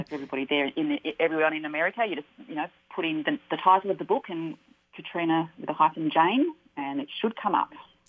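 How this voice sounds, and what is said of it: Australian accent. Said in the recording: “all the way from Australia with her darling accent.”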